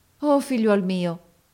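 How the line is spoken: Exclaimed. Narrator (Italian): esclamò essa

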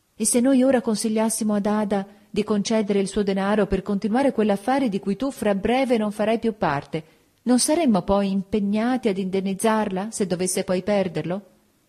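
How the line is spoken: Exclaimed. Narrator (Italian): nel mio nuovo altruismo esclamai

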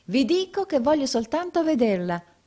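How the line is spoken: Client exclaims. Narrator (Italian): esclamò il cliente

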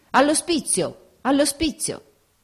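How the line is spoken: Shouting. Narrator (Italian): le grida di

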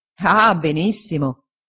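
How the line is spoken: Laughing. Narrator (Italian): disse Traddles ridendo

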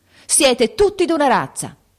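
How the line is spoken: Sudden shout. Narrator (Italian): gridò improvvisamente

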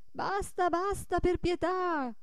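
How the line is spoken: Old men pleading shouts. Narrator (Italian): gridavano i più vecchi e i più pingui

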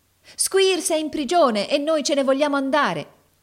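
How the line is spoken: Chorus of shrill voices. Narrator (Italian): esclamò un coro di voci squillanti

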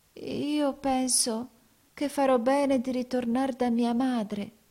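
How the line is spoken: Timid voice. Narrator (Italian): disse con timida voce

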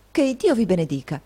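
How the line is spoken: Exclaiming. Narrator (Italian): esclamò Nicola

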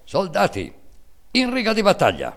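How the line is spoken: Stern military command shout. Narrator (Italian): atteggiandosi a giudice severo e inesorabile, gridando in tono di comando militare

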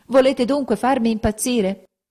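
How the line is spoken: Desperate shouting. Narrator (Italian): gridava con le mani in testa

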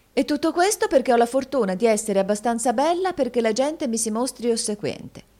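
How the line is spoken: Exclaiming. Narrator (Italian): esclamò la signorina Price

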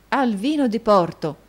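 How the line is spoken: Exclaiming. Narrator (Italian): esclamò Nicola

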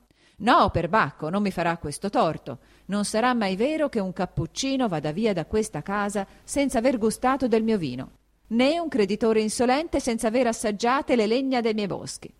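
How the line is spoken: Raised voice over commotion. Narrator (Italian): don Rodrigo, alzando la voce, in mezzo al trambusto che era ricominciato, gridava

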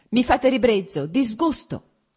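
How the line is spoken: Heated angry shout. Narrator (Italian): gridò lei riscaldandosi ancora di più

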